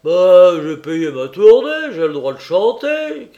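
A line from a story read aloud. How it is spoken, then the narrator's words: Shouting. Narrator (French): crie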